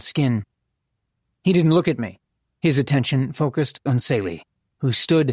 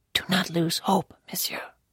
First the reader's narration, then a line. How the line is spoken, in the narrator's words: he whispered